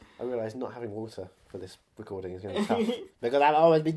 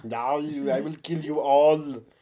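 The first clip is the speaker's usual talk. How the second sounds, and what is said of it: Imitates another person's voice. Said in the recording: “You sound nothing like Stephen Lang.”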